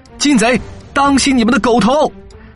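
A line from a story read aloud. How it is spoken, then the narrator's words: Battle shout. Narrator (Chinese): 岳云一马当先，挥舞双锤，大喊道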